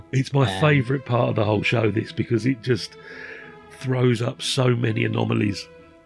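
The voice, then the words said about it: Strained, failing voice. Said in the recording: “My voice is going. Can you hear that?”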